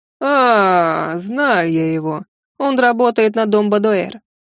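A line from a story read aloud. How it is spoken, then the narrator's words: Adult drawling. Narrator (Russian): протянул взрослый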